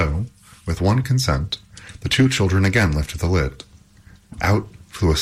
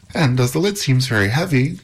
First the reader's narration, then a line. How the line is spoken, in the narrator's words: cried Epimetheus